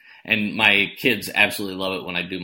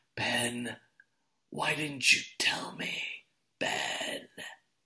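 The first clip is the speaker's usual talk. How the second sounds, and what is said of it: Over-the-top Luke Skywalker impression. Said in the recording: “my Luke Skywalker impersonation ... it's so over the top. Mark Hamill in that scene is so over the top”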